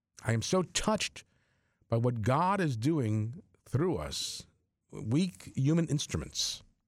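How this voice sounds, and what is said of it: Choked-up, emotional voice. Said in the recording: “I do get choked up.”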